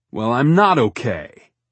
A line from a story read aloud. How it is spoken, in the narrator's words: he snaps